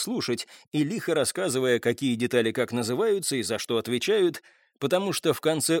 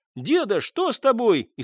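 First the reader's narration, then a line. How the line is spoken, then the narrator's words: Frightened child's shout. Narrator (Russian): испуганно закричал мальчик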